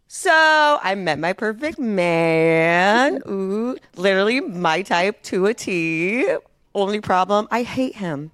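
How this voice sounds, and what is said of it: Impression of a friend. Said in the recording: “my true to life. Actual accurate impression of Abby”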